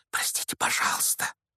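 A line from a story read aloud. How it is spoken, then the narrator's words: Whisper. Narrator (Russian): прошептал Гарри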